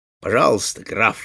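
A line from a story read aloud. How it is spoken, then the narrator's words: Exclaim. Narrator (Russian): воскликнул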